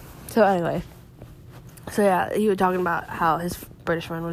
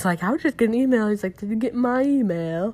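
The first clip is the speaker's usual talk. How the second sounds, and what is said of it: Poor fake British accent. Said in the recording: “Oh, wow, that was horrible. Never ever gonna do a British accent ever. ... Impression of a British accent, of a fake one ... it's just not good”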